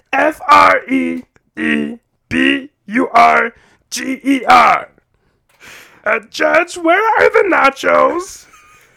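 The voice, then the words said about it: Imitates a cartoon character's voice. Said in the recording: “that was my impression ... Fred Berger from The Grim Adventures of Billy and Mandy”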